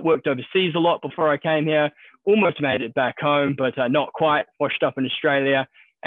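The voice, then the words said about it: New Zealand accent. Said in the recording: “you can probably tell from my accent, originally from New Zealand”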